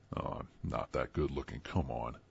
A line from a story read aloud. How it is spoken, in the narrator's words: scoffed